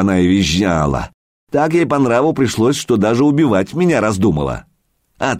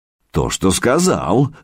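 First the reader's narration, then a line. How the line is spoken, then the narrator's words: Smirking grunt. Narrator (Russian): хмыкнул Илья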